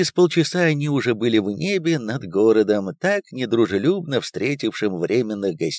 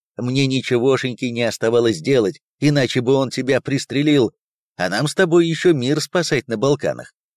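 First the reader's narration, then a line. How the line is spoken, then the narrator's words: Laughing. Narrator (Russian): засмеялся Виктор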